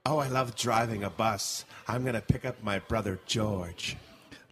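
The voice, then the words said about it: Liberace impression. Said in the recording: “Liberace driving a bus”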